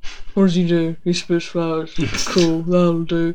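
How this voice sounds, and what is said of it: Imitates another person's voice. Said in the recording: “my impression of Peggy, what's her name, who wrote the episode”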